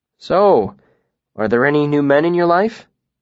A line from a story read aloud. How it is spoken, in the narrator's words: Denna chuckled low in her throat